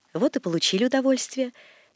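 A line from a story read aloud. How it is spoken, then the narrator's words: Kind, gentle. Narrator (Russian): говорил мне дядин приказчик ласково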